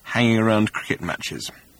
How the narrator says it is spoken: he added in an undertone

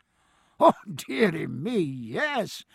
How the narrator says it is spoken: said Anderson, laughing

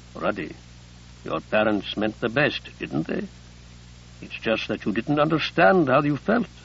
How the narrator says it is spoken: Abdelkader said gently

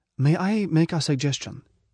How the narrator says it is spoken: somebody said quietly

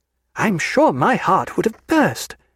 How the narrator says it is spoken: she exclaimed

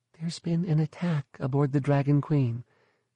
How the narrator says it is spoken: she whispered

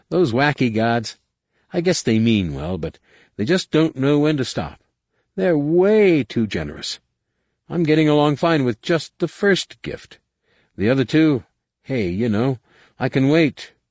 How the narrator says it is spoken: he said with a weak laugh

